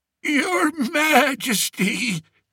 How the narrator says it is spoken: he wheezed

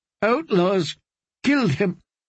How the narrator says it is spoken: sobbed Lady Amorai

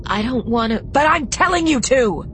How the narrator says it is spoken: He screamed

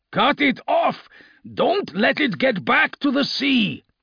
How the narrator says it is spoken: Lucas roared

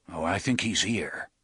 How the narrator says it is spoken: murmured

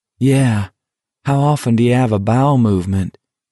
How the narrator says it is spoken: Baker said dryly

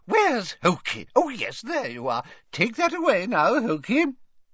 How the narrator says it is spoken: said Hepzibah happily

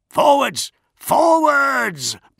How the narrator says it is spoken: Bronzy yelled at the rifle carders

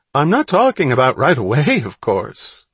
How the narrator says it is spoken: called brightly

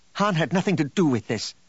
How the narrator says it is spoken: Leia snapped

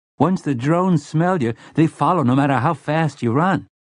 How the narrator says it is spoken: Slightman's boy said eagerly

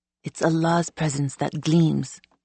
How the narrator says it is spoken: he said, his voice gruff with habitual arrogance

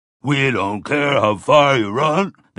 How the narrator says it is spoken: they bawled back

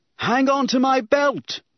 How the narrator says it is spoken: Obi-Wan shouted

